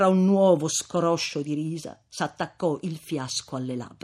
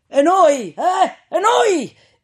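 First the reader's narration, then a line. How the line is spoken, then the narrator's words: Several voices shouting from ahead. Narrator (Italian): gridarono più voci dal carro che era avanti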